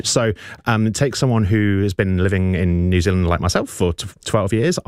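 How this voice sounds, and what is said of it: English accent, slight Kiwi tinge. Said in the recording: “I cannot shake my English accent ... I've kind of picked up a bit of a Kiwi accent”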